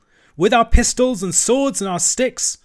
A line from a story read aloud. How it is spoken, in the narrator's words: shouted the rat